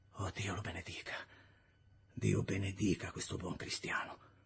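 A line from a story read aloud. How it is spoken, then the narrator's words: Contrite murmur. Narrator (Italian): mormorando contrito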